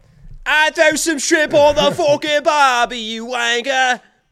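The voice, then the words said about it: Put-on Australian accent. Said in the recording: “Aussie accent. Can you do an Aussie accent?”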